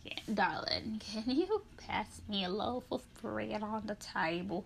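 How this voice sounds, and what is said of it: Crusty old man voice. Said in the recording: “I sound like a crusty old man ... Like, that's how I sound.”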